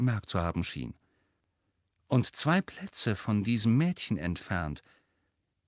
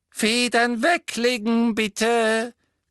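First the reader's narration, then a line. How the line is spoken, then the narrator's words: Squeaked. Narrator (German): quiekte Professor Flitwick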